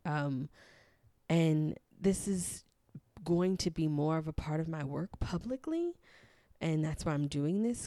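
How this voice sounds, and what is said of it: Trembling, nervous voice. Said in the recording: “if you could hear the trembling in my voice, it's very scary for me”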